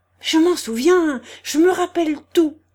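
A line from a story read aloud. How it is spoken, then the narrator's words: Exclaimed. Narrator (French): s'écria-t-il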